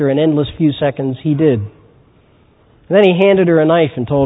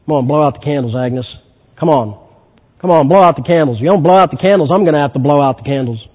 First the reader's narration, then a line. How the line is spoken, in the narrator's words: Harry gruffly mumbled